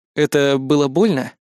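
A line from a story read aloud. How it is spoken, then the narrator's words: Plain. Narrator (Russian): спросил я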